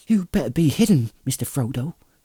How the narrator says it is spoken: said Sam anxiously

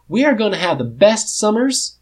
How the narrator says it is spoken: Biddy says cheerfully, just a little bit forced

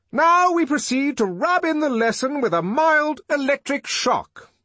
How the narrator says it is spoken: the director shouted, for the noise was deafening

